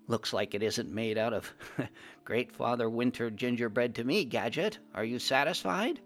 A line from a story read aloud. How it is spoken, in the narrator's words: I said with a small laugh